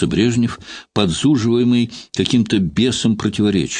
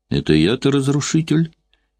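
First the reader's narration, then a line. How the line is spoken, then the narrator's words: Ironic, very calm question. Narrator (Russian): иронически и очень спокойно переспросил Сталин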